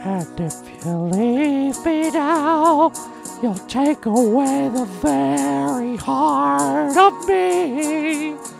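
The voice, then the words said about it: Howling, strained singing voice. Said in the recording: “you sound like a dead werewolf”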